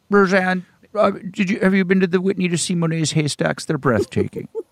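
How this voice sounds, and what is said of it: Imitates another person's voice. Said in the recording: “That's a great impression. ... I don't really do a Lorne”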